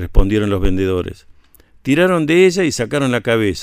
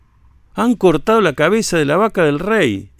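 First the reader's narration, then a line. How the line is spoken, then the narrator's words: Rabbit exclaiming. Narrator (Spanish): exclamó el conejo Sonsani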